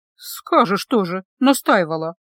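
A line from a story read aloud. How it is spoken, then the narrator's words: Muttered. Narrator (Russian): пробормотала она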